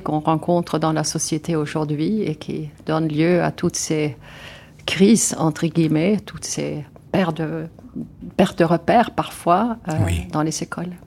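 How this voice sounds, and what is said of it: Swedish accent in French. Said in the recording (French): “d'où est-ce qu'elle a son accent? ... je suis d'origine suédoise”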